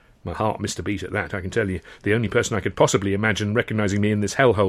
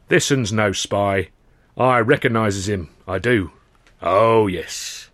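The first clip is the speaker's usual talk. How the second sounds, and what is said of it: Deep gruff character voice. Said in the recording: “a deep voice cut in”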